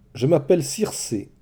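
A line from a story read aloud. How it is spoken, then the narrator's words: Plain. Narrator (French): dit leur hôtesse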